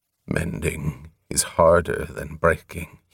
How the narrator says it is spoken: he mumbled

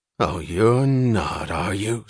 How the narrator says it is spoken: snarled Pete, who had but one recourse when in doubt

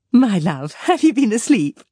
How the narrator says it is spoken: said his wife, laughing

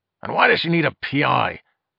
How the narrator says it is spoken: He added with a growl

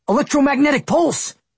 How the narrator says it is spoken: Austin blurted out

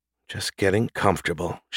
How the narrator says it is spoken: she murmured

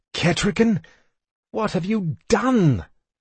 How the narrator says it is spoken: cried in dismay

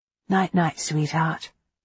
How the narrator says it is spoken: whispered

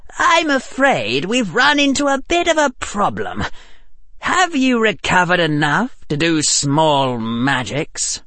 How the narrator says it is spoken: Harry said in his cold, high voice

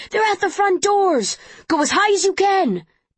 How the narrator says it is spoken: shouting things at each other

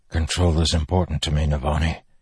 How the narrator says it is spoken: he said, his voice hoarse

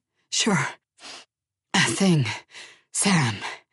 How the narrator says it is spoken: he panted between gulps of air

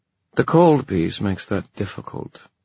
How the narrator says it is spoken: the queen said dryly

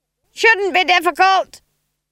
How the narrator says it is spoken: screamed Granny above the noise of the wind

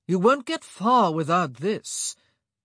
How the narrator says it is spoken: he called out, his voice a rather cruel drawl

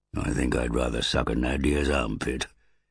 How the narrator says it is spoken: muttered Druss

